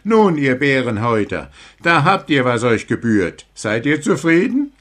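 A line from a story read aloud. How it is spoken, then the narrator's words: Call. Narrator (German): rief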